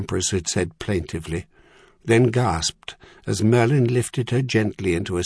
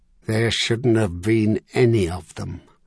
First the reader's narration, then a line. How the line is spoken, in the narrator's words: Merlin had said through his teeth